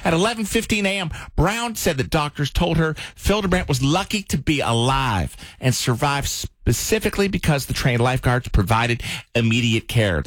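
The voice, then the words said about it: Reading news in a put-on accent. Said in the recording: “I was so focused on your accent, I don't even know what this story was about.”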